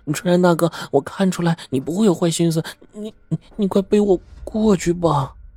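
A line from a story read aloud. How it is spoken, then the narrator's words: Pleading. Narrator (Chinese): 陈梅见夏春山呢不肯背他，便哀求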